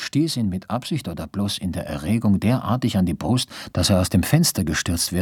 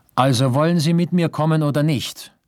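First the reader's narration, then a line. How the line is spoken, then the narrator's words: Called out. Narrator (German): rief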